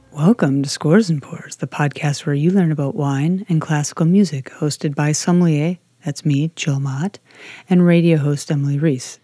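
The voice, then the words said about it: Announcer-style radio voice. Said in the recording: “This is my radio voice, everyone.”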